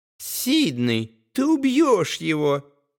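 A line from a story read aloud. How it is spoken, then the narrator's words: Squeaky mimicry, gleeful snort. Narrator (Russian): подражая девушке, пропищал Том и фыркнул от удовольствия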